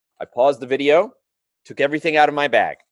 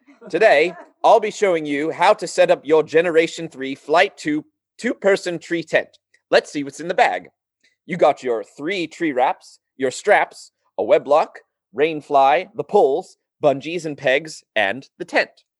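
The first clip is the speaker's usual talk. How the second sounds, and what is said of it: Weak put-on British accent. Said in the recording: “a fellow who sounded like he was from the United Kingdom ... I'll try to do his accent. It's going to be bad.”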